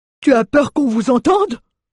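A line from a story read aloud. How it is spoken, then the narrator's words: Furious exclamation. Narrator (French): s'exclama Mjoln, furieux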